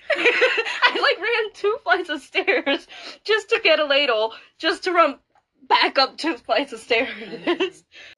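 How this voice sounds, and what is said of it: Out of breath, breathless speech. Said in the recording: “out of breath. Breathe, I can tell. Stop holding it in. Breathe.”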